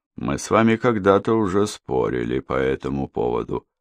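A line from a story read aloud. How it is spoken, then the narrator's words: Calm remark. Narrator (Russian): спокойно заметил Витема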